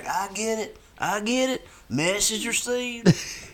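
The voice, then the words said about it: George Bush impression. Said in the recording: “do that great George Bush impression”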